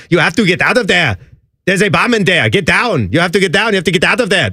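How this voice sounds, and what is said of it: Bad exaggerated German-accented impression. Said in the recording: “She has the absolute worst Arnold impersonation. It almost sounds sort of like your Wolfgang ... It actually sounds more like a German SS soldier.”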